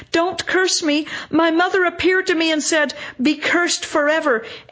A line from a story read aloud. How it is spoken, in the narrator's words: moaning